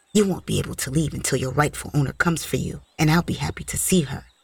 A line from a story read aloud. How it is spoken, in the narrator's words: She whispered